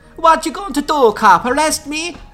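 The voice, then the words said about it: Heavy put-on Italian accent. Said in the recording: “spoke in a heavy Italian accent”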